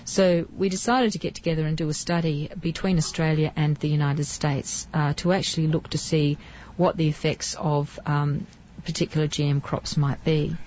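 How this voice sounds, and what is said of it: Australian accent. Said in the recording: “As you can hear from my accent, I come from Australia.”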